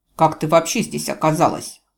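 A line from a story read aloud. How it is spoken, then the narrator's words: Stern question. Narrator (Russian): строго спросил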